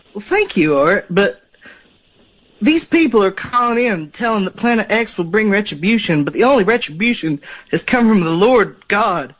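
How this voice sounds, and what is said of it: Speaks with a noticeable accent. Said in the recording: “you have a wonderful accent too, caller”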